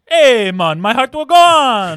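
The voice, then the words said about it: Put-on Jamaican accent. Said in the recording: “in your Jamaican accent”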